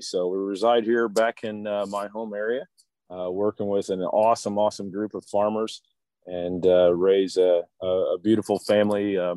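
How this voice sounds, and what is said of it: Slightly raspy voice. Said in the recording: “my voice is a little raspy, ... did quite a bit of yelling”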